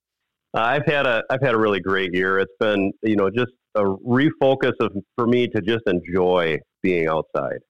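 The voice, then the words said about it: Slightly raspy voice. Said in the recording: “Your voice sounds a little bit better than when I talked to you last week. ... I've been a little raspy recovering from having been sick”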